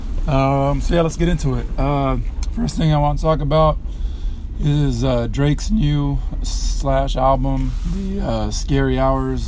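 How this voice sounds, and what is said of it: Hoarse, strained voice. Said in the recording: “Please excuse my voice. I'm not trying to speak loud. I've lost my voice”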